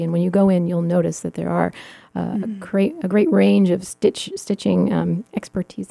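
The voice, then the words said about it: Hoarse, fading voice. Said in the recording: “I'm also losing my voice.”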